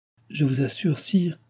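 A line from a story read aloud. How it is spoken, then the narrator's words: Stammering. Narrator (French): balbutia-t-il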